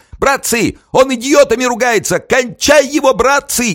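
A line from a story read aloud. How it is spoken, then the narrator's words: Shrill shout. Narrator (Russian): Ефремов визгливо крикнул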